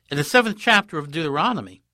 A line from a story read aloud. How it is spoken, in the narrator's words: he exclaimed